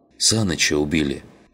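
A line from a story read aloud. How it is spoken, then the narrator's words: Breathless exhale. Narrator (Russian): выдохнул он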